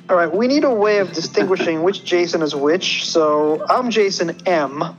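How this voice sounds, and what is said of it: American Brooklyn accent. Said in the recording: “by my accent, I can go by ... or”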